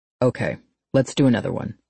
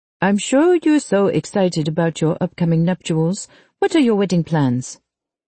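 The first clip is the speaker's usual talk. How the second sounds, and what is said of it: Fake accent. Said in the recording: “brings back the fake accent.”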